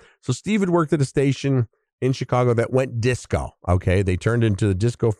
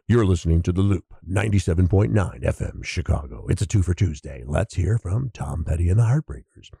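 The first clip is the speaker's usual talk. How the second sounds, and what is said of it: Radio DJ announcer voice. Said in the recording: “I'm doing my radio voice right now.”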